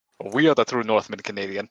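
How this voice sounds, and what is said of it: Put-on Russian accent. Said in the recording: “I have this accent, even though my parents not from old country ... They kept alive and well from Mother Russia.”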